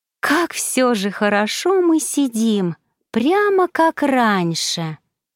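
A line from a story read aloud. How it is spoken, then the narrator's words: Purring. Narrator (Russian): промурлыкала Бригитта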